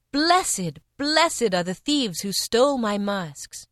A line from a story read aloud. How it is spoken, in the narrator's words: as if in a trance, I cried